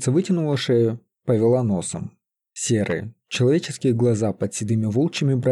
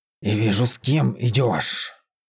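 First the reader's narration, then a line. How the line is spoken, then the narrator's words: Growled. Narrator (Russian): Зарычала она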